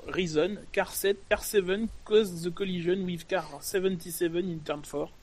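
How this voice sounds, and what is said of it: English with a French accent. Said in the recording (French): “very good French accent”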